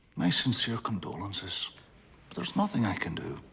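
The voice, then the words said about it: Pierce Brosnan, Irish accent. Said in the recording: “So that's Pierce Brosnan trying to pull off an Irish accent, you know. Maybe okay, maybe not.”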